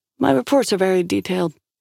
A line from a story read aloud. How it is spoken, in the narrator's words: Shaw said dryly